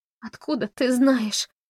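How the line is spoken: Moaning through heavy sobs. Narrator (Russian): сквозь бурные рыдания простонала Мэри Лу

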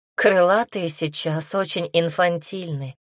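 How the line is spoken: Sigh. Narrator (Russian): вздохнула Агата

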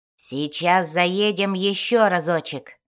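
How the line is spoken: Triumphant growl. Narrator (Russian): Торжествующе прорычал Бреннер

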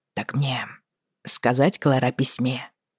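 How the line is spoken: Plain question. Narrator (Russian): спросил тот

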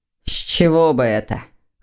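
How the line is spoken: Snort. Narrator (Russian): хмыкнул Лефевр

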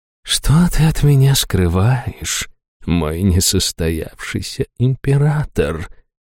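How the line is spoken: Purring. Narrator (Russian): промурлыкала Хайту

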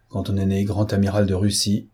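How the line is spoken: Pessimist grumbling. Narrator (French): grogna un pessimiste

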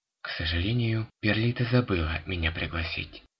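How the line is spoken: Calm reply. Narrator (Russian): ответила она спокойно

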